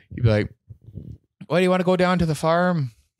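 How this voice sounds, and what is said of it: Put-on Irish accent. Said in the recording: “I'll do an Irish accent.”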